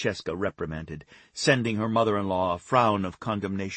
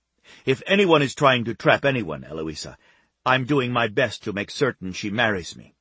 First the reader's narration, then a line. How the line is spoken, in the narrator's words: Giovanni snapped